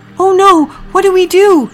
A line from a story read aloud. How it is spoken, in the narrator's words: cried Priscilla